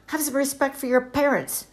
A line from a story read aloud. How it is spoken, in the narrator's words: snapped her mother